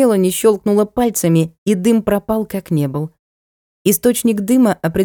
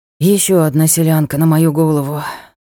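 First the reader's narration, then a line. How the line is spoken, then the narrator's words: Weary sigh. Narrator (Russian): вздохнул Ник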